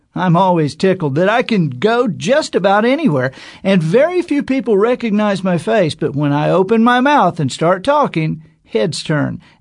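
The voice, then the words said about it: Distinctive Mississippi Southern accent. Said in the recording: “My voice is distinctive. And when you combine it with my Yazoo City, Mississippi accent,”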